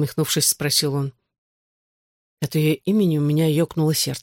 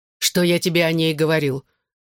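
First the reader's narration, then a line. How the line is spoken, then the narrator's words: Irritated question. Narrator (Russian): раздраженно спросил я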